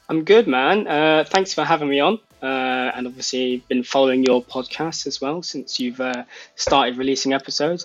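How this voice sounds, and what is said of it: British accent. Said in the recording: “Obviously, folks, you're hearing an accent there. ... He is a British citizen”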